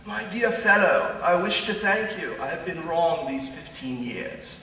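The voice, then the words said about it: Put-on accent. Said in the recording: “You can laugh at the accent.”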